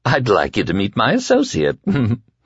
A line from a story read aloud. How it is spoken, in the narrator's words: Flagg said with a giggle